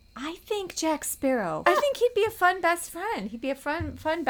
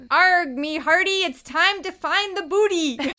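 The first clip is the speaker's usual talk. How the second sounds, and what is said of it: Pirate voice. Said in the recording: “Let's hear your best pirate impression. ... That was pretty good.”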